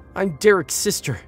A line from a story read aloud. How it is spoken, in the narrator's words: she screamed from the floor